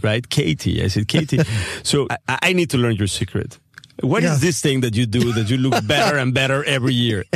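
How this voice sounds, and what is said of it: Slight Spanish accent. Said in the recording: “I'm speaking a little bit with a Spanish accent.”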